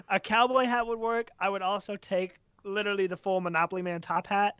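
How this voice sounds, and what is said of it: Slight southern accent. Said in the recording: “You have a slightly southern accent”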